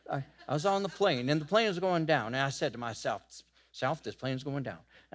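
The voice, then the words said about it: Put-on Southern preacher accent. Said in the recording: “they always have a southern accent.”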